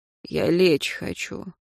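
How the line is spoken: Tired. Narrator (Russian): Димитров сказал устало

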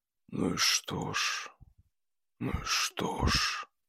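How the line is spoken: Apathetic whisper. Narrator (Russian): С полной бессознательной апатией шептал рыбник

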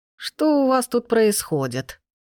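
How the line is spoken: Creaky old voice behind. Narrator (Russian): Проскрипел старческий голос за спиной

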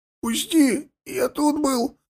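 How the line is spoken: Rasped. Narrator (Russian): прохрипел Гвоздев

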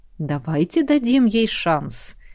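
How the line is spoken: Peaceable, quiet. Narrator (Russian): мирно и негромко предложил сидевший поодаль преподаватель

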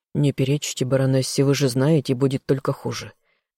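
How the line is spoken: Quiet man's voice. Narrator (Russian): тихо произнес мужчина

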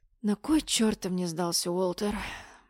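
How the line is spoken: Pleading whisper. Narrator (Russian): выпросила я шепотом

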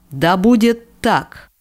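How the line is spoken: Deafening demon roar. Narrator (Russian): рявкнул демон так громко, что у меня снова зазвенело в ушах

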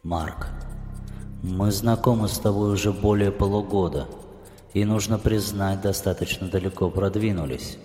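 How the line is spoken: Soft. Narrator (Russian): мягко начал Власов

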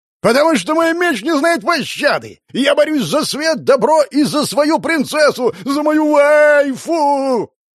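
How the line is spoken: Yelling even louder. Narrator (Russian): Он заорал еще громче

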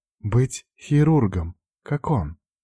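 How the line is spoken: Quiet reply. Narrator (Russian): тихо ответила она

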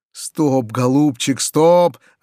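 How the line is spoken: Joyful mutter. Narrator (Russian): радостно бормотал Васютка

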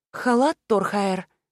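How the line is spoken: Mumbled. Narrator (Russian): промямлила я

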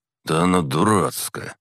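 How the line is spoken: Grumbling. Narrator (Russian): пробурчал Илья

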